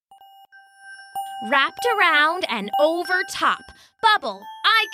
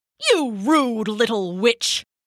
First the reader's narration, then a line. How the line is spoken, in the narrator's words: Archon snapped